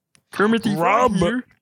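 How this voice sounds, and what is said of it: Kermit the Frog character voice. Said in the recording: “You sound like Kermit the Frog.”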